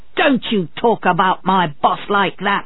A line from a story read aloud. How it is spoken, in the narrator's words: Otley shouted